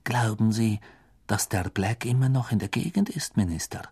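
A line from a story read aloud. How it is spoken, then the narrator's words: Whispered. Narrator (German): flüsterte Madame Rosmerta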